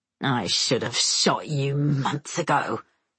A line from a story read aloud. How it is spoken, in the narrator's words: Semyon hisses